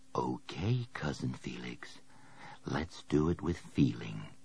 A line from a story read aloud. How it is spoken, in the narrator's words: He whispered under his breath